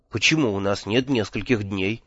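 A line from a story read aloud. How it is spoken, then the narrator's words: Quiet, shrill, hysterical. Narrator (Russian): тихо спросил я, с отвращением отмечая, что в моем голосе появились пронзительные истерические нотки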